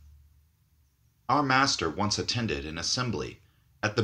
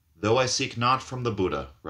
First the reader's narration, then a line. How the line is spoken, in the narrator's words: replied our master